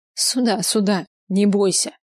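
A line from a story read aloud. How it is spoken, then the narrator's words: Loud laughter. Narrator (Russian): захохотала хозяйка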